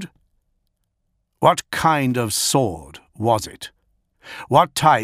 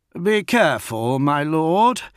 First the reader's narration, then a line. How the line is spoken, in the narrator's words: Consul Forsh called out